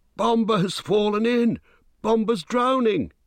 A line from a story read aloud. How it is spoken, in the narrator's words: cried